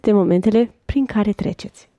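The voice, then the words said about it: Whispered. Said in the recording (Romanian): “mi-a șoptit”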